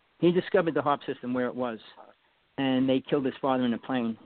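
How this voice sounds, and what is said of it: New York East Coast accent. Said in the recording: “I'm probably getting mixed up with the New York accent ... I'm deciphering your ... New Yorker ... or whatever the Eastern”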